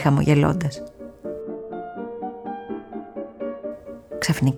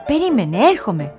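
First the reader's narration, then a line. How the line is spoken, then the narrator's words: Mouse calling out. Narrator (Greek): φωνάζει το ποντίκι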